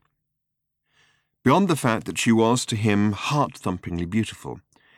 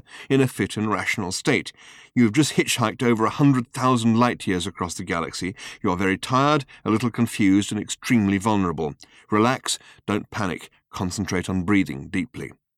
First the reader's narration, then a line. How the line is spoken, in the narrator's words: he continued to himself in the firmest internal voice he could muster